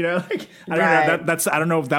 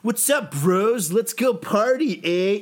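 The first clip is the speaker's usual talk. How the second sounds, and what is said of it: Frat bro voice, sounds drunk Canadian. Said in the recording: “that was my frat bro impression. It sounded more like a drunk Canadian.”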